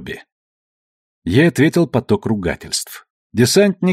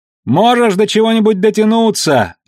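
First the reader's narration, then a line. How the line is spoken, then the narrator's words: Shouting at close range. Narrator (Russian): Алекс кричал, хотя их с Бобби разделяло всего полтора метра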